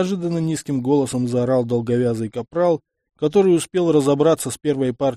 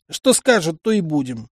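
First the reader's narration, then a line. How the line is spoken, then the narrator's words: Smirking grunt. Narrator (Russian): хмыкнул Габриэль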